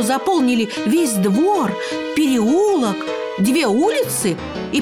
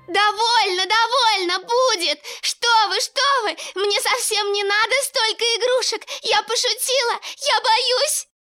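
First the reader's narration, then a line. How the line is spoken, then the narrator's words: Terrified scream. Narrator (Russian): В ужасе закричала Женя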